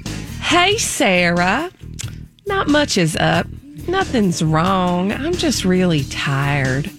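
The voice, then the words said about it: Put-on Southern American accent. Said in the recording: “Okay, I gotta do my southern accent.”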